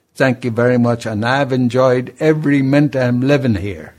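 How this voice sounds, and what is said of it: Irish accent. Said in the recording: “this wonderful Irish accent ... It's not put on ... Great Irish accent”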